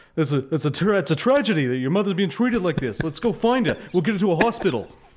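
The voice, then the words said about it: Bernie Sanders impression. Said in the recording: “I can't do a Bernie Sanders impression. ... With as good a Bernie as anybody else is doing.”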